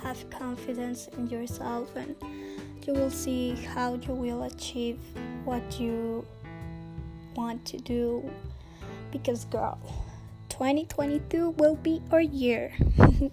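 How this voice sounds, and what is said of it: Sick, strained sore-throat voice. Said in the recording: “I must apologize for my voice because I'm sick. I have a sore throat ... it is hurting right now”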